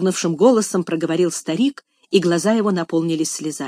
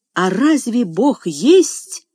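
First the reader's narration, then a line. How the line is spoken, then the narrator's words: Desperate interrupting exclamation. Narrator (Russian): с отчаянием в голосе воскликнул Джордж, перебив старика на полуслове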